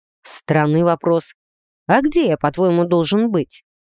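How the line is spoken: Wry snort. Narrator (Russian): хмыкнул Грей

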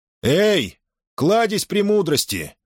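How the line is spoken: Shouting call. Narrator (Russian): крикнул командор

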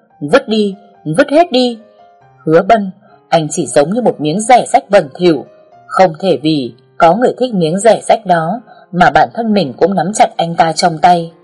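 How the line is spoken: Loud shout. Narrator (Vietnamese): Hy Lôi hét lớn

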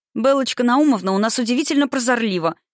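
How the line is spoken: Joyful. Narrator (Russian): сообщила она радостно

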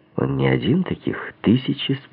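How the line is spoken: Calm remark. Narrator (Russian): спокойно заметил я

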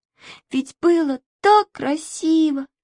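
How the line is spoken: Sobbing. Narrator (Russian): всхлипывала она

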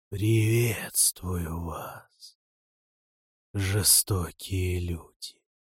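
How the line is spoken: Sepulchral voice. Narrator (Russian): человек проговорил за могильным голосом

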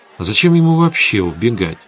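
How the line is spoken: Thoughtful. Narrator (Russian): задумчиво сказала Светлана

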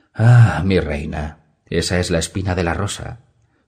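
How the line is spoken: Sighed. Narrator (Spanish): suspiró Hiddager Zolorak

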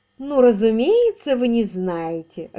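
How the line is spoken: Laughing, slightly superior. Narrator (Russian): рассмеялась мисс Кеннингем с легким оттенком превосходства

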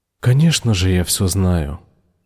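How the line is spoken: Soft gentle voice. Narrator (Russian): мягко сказал он

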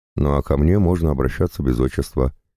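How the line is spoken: Plain. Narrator (Russian): говорит Василиса

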